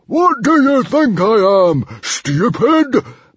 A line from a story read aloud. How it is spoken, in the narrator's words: bellowed Stoic